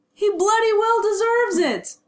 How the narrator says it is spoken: James shouted, bristling in a way that suggested he rather didn't care for Remus's tone

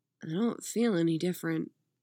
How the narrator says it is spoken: Dick said quietly

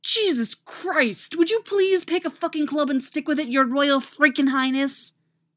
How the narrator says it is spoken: Jason snaps

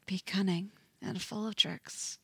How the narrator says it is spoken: Eddie whispers

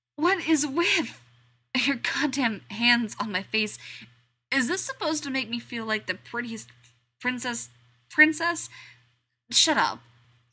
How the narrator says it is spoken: he says, over Steve's joyful barking laugh

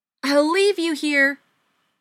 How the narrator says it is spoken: Lindsay screamed

